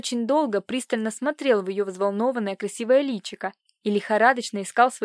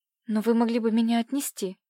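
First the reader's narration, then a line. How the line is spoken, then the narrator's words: Uncertain timid babble. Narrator (Russian): пролепетала она неуверенно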